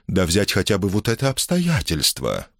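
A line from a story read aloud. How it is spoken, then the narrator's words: Heartfelt storyteller tone. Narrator (Russian): продолжил проникновенным тоном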